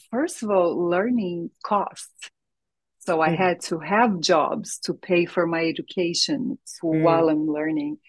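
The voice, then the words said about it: Brazilian-accented English. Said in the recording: “as you can tell, I have an accent. I'm born and raised in Brazil”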